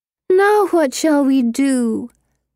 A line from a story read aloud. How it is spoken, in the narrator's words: Pippa whines